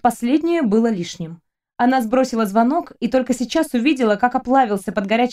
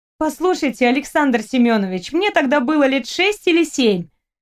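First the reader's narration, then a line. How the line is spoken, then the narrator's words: Indignant female voice. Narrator (Russian): возмущенно сказала она, когда он попытался ей не поверить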